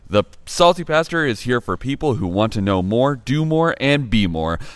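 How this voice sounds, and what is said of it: Drawling voice. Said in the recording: “that drawl.”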